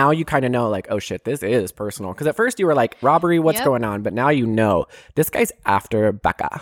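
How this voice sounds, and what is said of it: Usual voice. Nothing is said of it.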